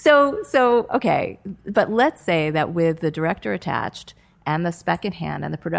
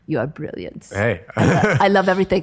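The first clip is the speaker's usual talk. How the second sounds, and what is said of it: Dracula-like accent. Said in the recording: “he has an accent ... why he sounds like Dracula”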